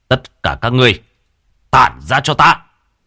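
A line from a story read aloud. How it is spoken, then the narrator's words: Thunderous shout. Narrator (Vietnamese): quát lên một tiếng như sấm động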